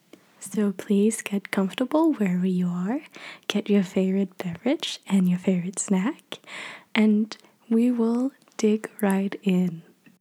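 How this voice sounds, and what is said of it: Quiet, lowered voice. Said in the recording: “I will be talking in a little lower voice”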